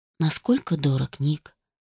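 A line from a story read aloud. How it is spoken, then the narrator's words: Unexpectedly soft question. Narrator (Russian): Неожиданно мягко поинтересовался муж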